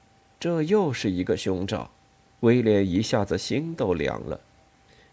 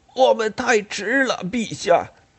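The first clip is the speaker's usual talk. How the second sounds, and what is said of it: Hoarse, breathless character voice. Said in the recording (Chinese): “那人粗哑的声音说，一边还喘着气”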